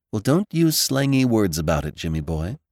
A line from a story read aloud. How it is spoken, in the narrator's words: sighed Theodora